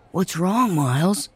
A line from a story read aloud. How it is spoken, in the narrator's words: Ben whispered